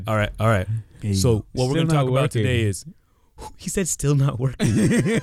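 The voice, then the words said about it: Canadian accent, proper-sounding. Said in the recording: “sounded like very proper ... my Canadian accent”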